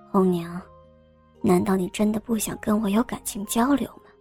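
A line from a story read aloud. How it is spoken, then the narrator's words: Gentle, tender. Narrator (Chinese): 张生温柔地说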